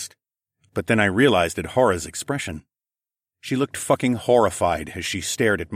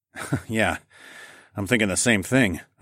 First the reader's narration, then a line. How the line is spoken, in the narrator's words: I snorted